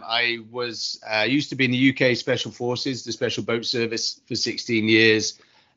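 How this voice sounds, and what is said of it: British accent. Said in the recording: “from my accent, I'm from the UK originally”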